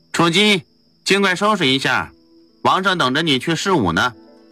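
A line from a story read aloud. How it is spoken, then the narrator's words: Loud call. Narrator (Chinese): 秦王侍臣，大声对着屋里说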